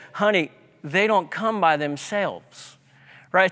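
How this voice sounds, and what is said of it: Texas Southern drawl imitation. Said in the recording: “my nanny from Texas, saying in her Texas accent, Southern drawl”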